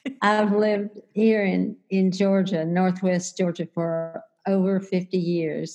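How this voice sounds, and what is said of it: Southern accent with mountain twang. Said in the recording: “you just want to hug that accent ... It should be a softer accent than what I've got now. ... So I probably have a little mountain twang in me”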